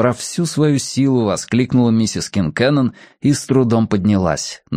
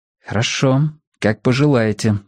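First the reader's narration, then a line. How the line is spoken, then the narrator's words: Calm. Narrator (Russian): спокойно ответил Мэтью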